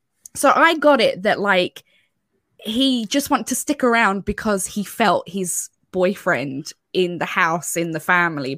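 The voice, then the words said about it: Irish accent. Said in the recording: “My Irish accent can't pronounce these nice French names”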